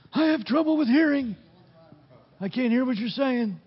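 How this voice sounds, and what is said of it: Old grandpa character voice. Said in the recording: “That's my Grandpa voice.”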